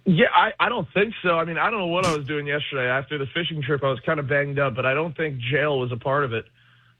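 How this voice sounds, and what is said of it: Hoarse, strained voice. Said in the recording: “are you losing your voice? ... sound like that”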